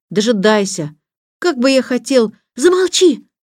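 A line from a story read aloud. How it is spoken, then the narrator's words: Shouted. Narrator (Russian): закричала Антея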